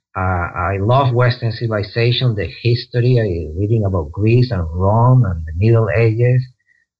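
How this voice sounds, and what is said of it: Strong foreign accent. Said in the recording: “I have a strong accent”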